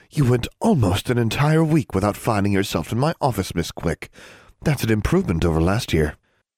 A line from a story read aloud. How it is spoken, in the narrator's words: observed the dean in a deceptively pleasant tone